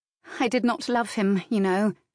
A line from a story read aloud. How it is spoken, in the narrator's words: she said in a sad and hollow voice